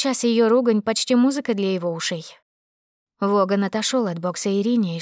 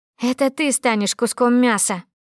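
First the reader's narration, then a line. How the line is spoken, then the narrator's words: Angry, through clenched teeth. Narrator (Russian): Сэмюэля все таки злило такое хамское и пренебрежительное отношение к своей персоне, и потому он процедил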